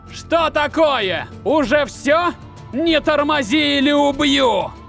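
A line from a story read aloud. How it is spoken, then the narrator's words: Shout. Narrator (Russian): госпожа Дора крикнула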